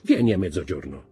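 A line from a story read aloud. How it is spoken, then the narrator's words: Plain. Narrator (Italian): disse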